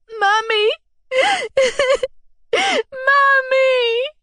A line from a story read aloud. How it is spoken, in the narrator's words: I said, sobbing